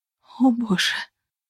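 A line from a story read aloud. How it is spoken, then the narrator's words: Whisper. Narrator (Russian): прошептала я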